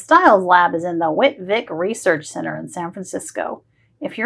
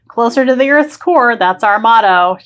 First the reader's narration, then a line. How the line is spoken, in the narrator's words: she laughs